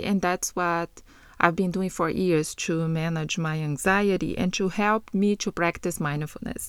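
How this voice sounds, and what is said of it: Portuguese-accented English. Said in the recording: “You will hear an accent, and that is because I speak as well Portuguese”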